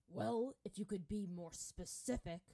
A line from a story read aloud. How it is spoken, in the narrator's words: Bato growled